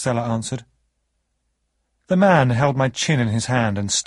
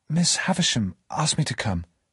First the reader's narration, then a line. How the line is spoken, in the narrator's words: whispered